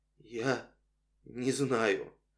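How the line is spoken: Strained, choked voice. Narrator (Russian): он сдавленным голосом произнес

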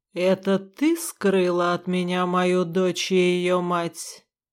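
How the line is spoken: Deceptively calm, lion. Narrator (Russian): обманчиво спокойным тоном произнес лев

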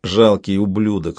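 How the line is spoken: Creaking through teeth. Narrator (Russian): сквозь зубы проскрипел талисман

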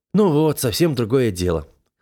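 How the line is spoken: Satisfied snort. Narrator (Russian): хмыкнул я удовлетворенно

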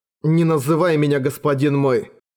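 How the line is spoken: Plain. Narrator (Russian): сказал Эрагон

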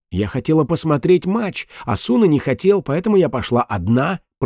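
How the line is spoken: Hissed. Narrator (Russian): прошипела Алисия

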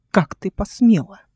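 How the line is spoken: Hiss. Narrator (Russian): прошипела Вердана

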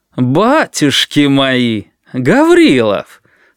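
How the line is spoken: Startled unmilitary exclamation. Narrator (Russian): совсем не по-военному воскликнул один из милиционеров

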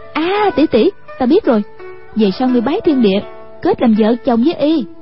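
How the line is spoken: Exclaiming. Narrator (Vietnamese): Hoàng Dung kêu lên

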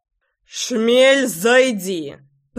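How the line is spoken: Growled. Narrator (Russian): прорычал Заверин

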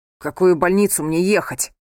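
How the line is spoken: Barking into phone. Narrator (Russian): рявкнул он в трубку

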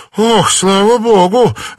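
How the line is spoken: Relieved exhale. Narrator (Russian): выдохнула она

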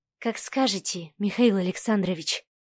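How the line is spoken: Whispered reply. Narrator (Russian): прошептала девушка в ответ

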